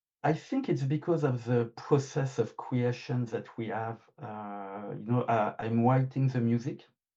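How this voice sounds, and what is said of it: French accent. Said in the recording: “sorry for my French accent. I can hear it.”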